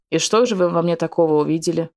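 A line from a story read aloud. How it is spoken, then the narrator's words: Unchallenging snort. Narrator (Russian): Снова хмыкнул Раф, но уже без вызова в голосе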